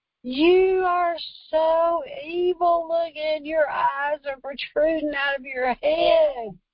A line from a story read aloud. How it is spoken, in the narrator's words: she screamed to the top of her head, and she goes